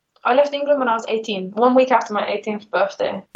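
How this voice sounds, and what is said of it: Mixed English-based accent. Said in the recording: “Your accent's kind of all over the place... that's not just English anymore.”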